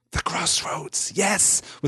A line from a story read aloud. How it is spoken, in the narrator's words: whispered Gollum